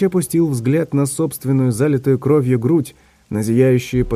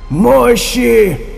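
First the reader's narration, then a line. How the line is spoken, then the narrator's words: Yelling. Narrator (Russian): орал он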